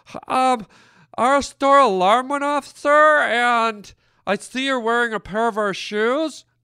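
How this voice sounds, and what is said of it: Effeminate, breathless male store clerk voice. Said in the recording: “kind of effeminate men ... a certain level of femininity going on ... out of breath”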